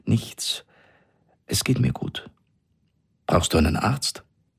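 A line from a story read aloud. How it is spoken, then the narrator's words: Trembling voice. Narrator (German): sagte sie mit zitternder Stimme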